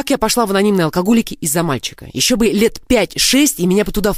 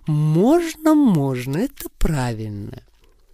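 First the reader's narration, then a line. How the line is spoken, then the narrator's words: Gentle purring. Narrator (Russian): Я ласково мурлыкала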